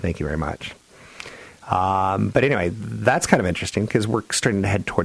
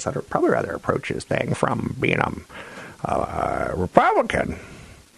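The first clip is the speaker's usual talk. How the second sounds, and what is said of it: Imitates another person's voice. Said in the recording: “That's my Caitlyn Jenner impression.”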